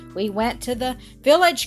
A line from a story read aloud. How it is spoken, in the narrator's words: cried Jean